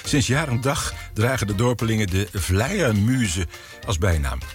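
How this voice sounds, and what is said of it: Put-on regional Dutch accent. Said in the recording (Dutch): “En dit wordt niks, want ik ga nu accent praten ... Klonk dat een beetje?”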